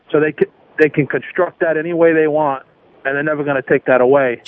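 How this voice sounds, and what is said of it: New York accent. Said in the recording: “you didn't lose your New York accent”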